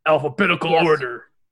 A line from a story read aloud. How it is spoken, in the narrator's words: the coach shouts